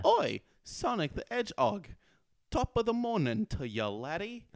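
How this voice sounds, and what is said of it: Cheery put-on British accent. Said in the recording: “you gotta do your British accent ... in her cheery British voice”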